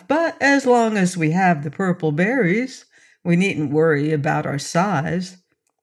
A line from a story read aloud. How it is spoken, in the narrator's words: she said with a laugh